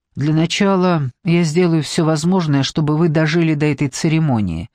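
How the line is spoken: Gloomy reply. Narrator (Russian): мрачно ответил Торн

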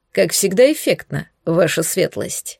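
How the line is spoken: Dry comment. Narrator (Russian): сухо прокомментировал советник

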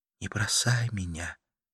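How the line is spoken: Whispered. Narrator (Russian): прошептала Карла

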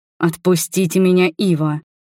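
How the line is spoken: Hissed. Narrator (Russian): прошипел Арман

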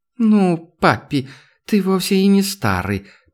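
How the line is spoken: Purring flirtatious young woman. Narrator (Russian): промурлыкала деваха, сидевшая на коленях у главы корпорации

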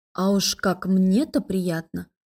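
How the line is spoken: Through gritted teeth. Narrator (Russian): Сквозь зубы процедила я в ответ

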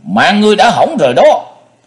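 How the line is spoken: Furious monster's roar. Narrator (Vietnamese): Giận quá quá cuồng, độc giác thần trùng hét lớn

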